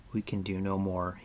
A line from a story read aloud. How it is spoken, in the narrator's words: he murmured